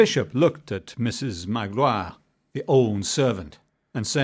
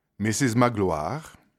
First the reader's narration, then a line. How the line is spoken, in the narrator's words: said the bishop calmly